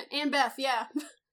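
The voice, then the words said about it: Speaks with a put-on accent. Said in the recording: “Oh, I have an accent.”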